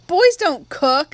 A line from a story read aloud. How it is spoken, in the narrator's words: I giggled at the thought of Jim in an apron